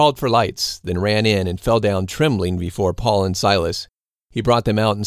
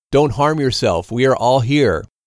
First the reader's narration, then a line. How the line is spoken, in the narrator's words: But Paul cried out with a loud voice, saying